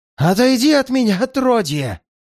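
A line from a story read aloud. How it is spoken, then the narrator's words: Hoarse shout. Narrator (Russian): Сипло выкрикнула она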